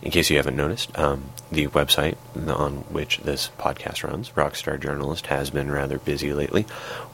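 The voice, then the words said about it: Husky, congested, tired voice. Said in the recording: “my voice is husky and resonant. That comes from a nasty head cold ... I am very, very tired.”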